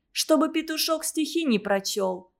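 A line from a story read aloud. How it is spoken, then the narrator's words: Sighing. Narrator (Russian): сказала Сима и вздохнула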